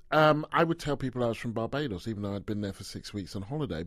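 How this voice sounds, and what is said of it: British accent. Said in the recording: “I was British, and you can hear from my voice. It's not like I'm from anywhere else.”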